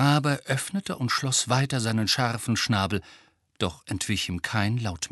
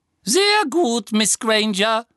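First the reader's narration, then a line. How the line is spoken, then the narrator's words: Thin squeaky voice. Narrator (German): ertönte Professor Flitwicks quiekende, dünne Stimme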